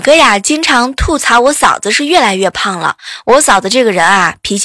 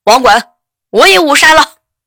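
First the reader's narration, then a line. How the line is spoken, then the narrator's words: Excited shout. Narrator (Chinese): 后排一个哥们儿特别激动的喊了一句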